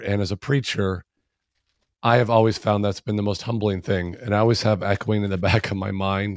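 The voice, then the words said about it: Weakened, hoarse voice from a cold. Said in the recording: “my voice is about half what it normally is. I'm getting over a delightful cold ... a little bit less of a voice than normal ... I lose my voice”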